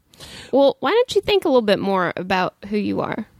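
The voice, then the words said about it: Slipped into a Texan accent. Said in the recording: “I sounded a twat. I think I sounded Texan when I said that.”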